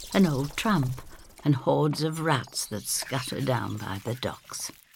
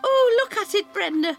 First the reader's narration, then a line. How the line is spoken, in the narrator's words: she cries